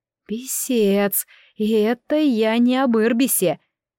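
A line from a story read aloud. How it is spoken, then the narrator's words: Groaning in frustration. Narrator (Russian): Я застонала от досады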